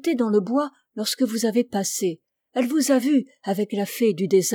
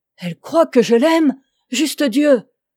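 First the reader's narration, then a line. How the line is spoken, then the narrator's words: King exclaiming. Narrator (French): s'écria le roi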